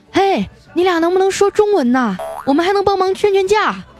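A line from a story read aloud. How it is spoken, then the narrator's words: Anxious loud shout. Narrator (Chinese): 我终于急了，大声的喊道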